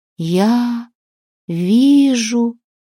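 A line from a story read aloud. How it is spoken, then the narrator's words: Slow. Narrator (Russian): медленно заговорила она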